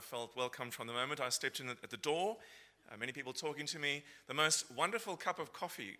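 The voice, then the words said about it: South African accent. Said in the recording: “what's that funny accent that you're hearing? So I'm originally from Cape Town in South Africa”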